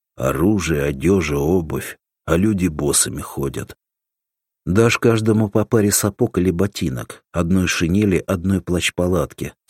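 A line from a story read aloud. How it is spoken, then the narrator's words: Plain. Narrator (Russian): сказал Крайнев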